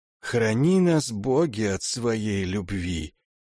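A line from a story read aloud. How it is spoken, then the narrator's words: Barely audible whisper. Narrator (Russian): еле слышно прошептал Алким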